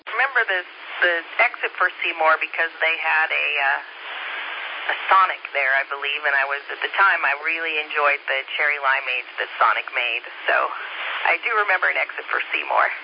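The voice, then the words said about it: Slight Indiana Hoosier accent. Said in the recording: “a little bit of Hoosier in your accent”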